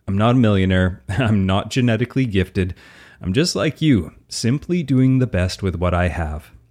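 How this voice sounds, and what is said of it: Canadian Albertan accent. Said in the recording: “I'm an easygoing Canadian, if you didn't guess from my outrageous Albertan accent”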